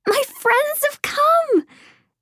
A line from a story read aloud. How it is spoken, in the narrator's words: Emmy squealed, clapping her hands in delight